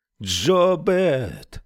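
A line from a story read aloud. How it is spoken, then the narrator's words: Roaring. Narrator (Russian): взревел он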